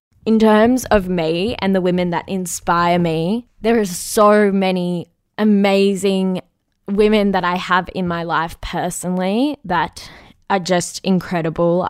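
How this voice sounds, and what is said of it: Hoarse, strained voice. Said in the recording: “Sorry, I am losing my voice. I definitely had a bender last night.”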